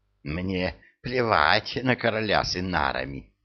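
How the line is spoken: Furious hiss. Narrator (Russian): яростно прошипел

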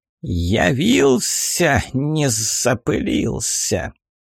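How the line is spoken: Venomous hissing greeting. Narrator (Russian): Полным ядошипением приветствовало фиалка

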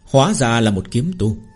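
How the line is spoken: Cold sneering laugh. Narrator (Vietnamese): Tên đạo nhân phù lục phái cười lạnh lùng

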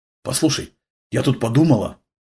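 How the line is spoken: Anxious whisper. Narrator (Russian): тревожно зашептала Ева

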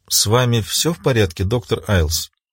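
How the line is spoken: Quiet question. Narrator (Russian): тихо спросила Луиза

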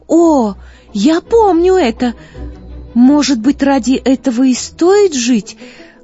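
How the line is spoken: Excited exclamation. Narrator (Russian): воскликнула Злата

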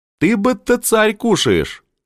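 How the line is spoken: Crowd laughing. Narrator (Russian): засмеялись люди гулящие

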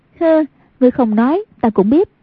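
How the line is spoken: Graceful, smiling. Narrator (Vietnamese): Hoàng Dung duyên dáng mỉm cười nói

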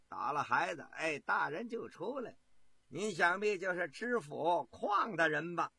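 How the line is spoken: Cheerful, grinning. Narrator (Chinese): 太监笑嘻嘻的说

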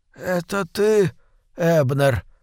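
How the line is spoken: Weak trembling voice. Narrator (Russian): произнес тот слабым, дрожащим голосом

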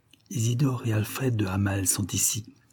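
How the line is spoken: Murmured. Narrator (French): murmura-t-elle

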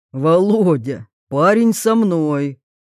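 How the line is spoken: Deep bass voice. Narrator (Russian): клиент пробасил

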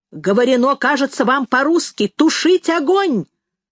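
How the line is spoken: Distant shout. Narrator (Russian): закричал кто-то с катера

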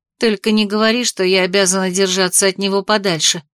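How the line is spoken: Rude interruption. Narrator (Russian): грубо перебила

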